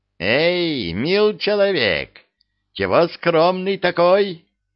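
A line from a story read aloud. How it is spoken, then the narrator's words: Loud good-natured call. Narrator (Russian): Зычным добродушным голосом подозвал меня бородатый лавочник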